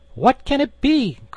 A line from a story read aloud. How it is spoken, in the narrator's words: cried they